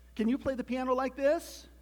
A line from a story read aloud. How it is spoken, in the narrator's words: cried Toad